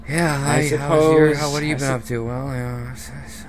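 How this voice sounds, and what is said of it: Gloomy Eeyore character voice. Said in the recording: “our best Eeyore impression”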